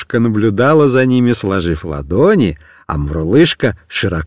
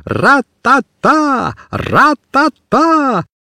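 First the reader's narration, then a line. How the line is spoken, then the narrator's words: Loud group shouting. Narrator (Russian): Все они громко кричали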